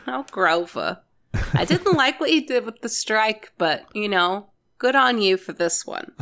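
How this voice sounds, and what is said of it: Exaggerated mom voice. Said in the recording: “my default mom voice”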